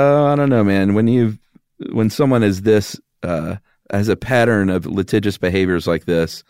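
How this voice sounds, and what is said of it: Usual voice. Nothing is said of it.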